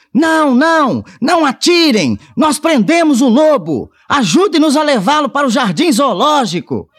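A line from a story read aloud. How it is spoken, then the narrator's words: Shout. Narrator (Portuguese): Pedro gritou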